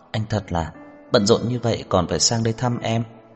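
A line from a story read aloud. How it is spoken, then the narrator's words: Smiling. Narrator (Vietnamese): Như Mạt mỉm cười ... nói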